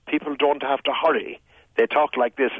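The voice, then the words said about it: Slow, deliberate Tipperary-style speech. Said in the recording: “the local Tipperary accent is very slow. It is very deliberate. ... in a very plain and open way”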